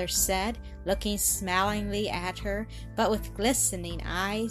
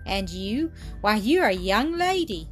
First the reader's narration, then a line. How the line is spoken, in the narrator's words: exclaimed Mildred, gazing at her in astonishment